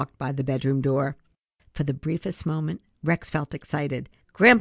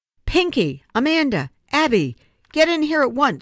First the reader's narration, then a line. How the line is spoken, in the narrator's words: Grandpa shout